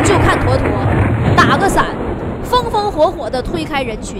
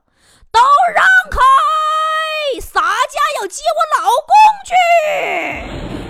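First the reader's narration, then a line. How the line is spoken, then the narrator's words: Loud roar. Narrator (Chinese): 一声大吼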